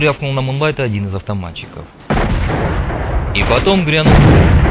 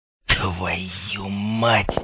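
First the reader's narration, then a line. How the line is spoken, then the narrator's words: Mumbling. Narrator (Russian): Пробормотал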